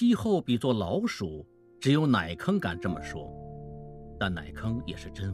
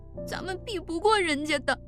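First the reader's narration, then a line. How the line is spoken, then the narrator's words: Crying. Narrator (Chinese): 奶坑依旧哭着说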